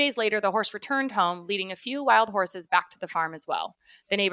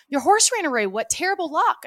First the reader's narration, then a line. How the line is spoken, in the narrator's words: the neighbors exclaimed